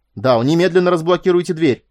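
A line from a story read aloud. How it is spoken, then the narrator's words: Furious yell over intercom. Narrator (Russian): яростно заорала Хельда в переговорное устройство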